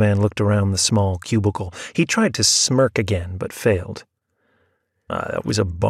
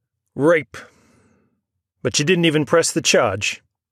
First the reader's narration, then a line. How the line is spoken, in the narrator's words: he said loudly